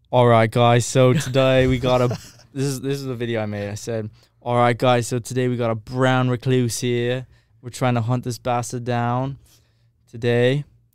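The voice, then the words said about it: Bad Steve Irwin impression. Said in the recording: “my Steve Irwin accent is terrible”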